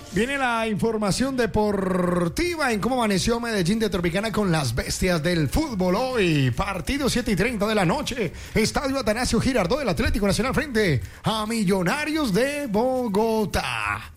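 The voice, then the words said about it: Sports narrator announcer voice. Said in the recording (Spanish): “Voz de narrador, ¿no? ... Sí, voz de narrador.”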